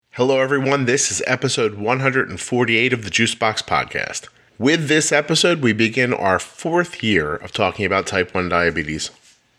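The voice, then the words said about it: Tired, sleepy, low-energy voice. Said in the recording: “it's late at night. I'm tired ... my intro is a little sleepy ... Let me try to find a little artificial excitement here at this late hour. Nope, I got nothing.”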